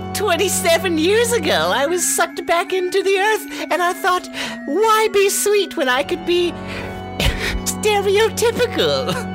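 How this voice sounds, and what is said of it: Cackling old witch voice. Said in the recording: “you sound like a cackling old witch caricature”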